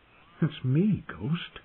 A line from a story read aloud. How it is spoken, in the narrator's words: he murmured, trying not to sound afraid